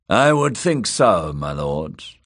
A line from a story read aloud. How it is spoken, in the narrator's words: Aurane Waters said dryly